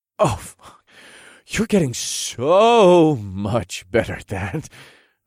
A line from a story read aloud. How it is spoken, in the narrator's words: I groaned